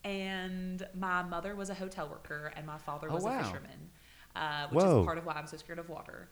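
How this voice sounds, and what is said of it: Nantucket accent. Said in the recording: “as I'm sure you can tell from my accent, I grew up in Nantucket”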